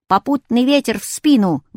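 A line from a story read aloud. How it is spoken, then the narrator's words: Barking shout. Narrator (Russian): гаркнул я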